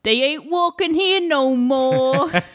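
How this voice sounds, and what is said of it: New Yorker accent impression. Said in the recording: “This is an impression of a New Yorker at a funeral.”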